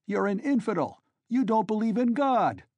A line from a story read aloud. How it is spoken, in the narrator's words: they shouted